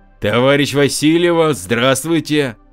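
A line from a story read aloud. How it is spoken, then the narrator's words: Loud bark. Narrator (Russian): гаркнул он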